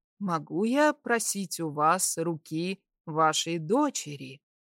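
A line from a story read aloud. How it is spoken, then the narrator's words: Sugary chirping voice. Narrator (Russian): Елейным голоском прищебетал принц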